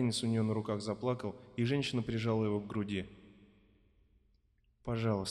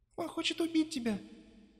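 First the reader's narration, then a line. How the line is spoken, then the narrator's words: Thin girlish voice. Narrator (Russian): сказала Мария тонким голосом, похожим на девичий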